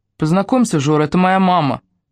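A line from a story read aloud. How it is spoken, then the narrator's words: Indifferent, slightly trembling. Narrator (Russian): произнесла Дашка безразличным тоном, но голосок у дочери чуть дрогнул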